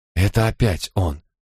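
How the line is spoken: Trembling whisper. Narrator (Russian): дрожащим голосом прошептала она

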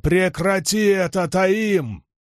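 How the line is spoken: Thunderous voice. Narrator (Russian): голос Ранда прогремел, как гром

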